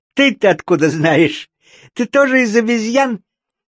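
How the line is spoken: Laughing animal. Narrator (Russian): спросило животное и засмеялось

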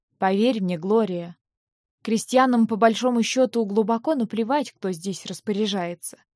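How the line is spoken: Plain. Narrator (Russian): сказал он

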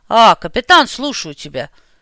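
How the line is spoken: Old man's deep bass rumble. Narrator (Russian): глубоким басом пророкотал старик

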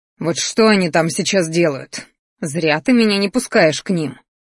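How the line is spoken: Growling. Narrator (Russian): рычал Кир

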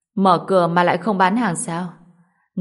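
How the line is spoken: Smiling middle-aged man. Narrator (Vietnamese): Người đàn ông trung niên mỉm cười

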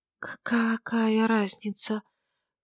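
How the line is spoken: Faint rustling voice. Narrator (Russian): Голос чуть слышно шелестит, подобно осеннему ветру

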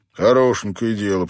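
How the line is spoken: Grumbling. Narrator (Russian): пробурчал

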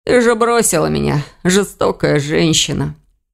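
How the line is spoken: Hoarse coughing. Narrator (Russian): Сипло закашлялся Элгар

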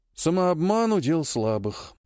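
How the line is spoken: Gruff mutter. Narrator (Russian): буркнул майор

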